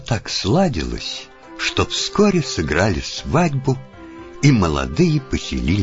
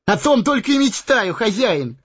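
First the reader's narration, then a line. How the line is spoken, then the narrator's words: Joyful exclamation. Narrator (Russian): Обрадованно воскликнул он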